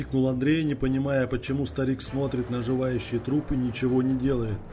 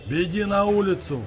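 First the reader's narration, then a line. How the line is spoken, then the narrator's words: Shouted. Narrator (Russian): крикнул Андрею дед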